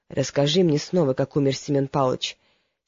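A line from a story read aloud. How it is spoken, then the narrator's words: Quiet, relieved. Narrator (Russian): Брыков вздохнул с облегчением и тихо сказал ему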